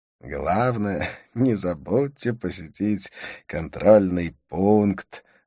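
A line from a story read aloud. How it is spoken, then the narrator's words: Laughing. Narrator (Russian): рассмеялся он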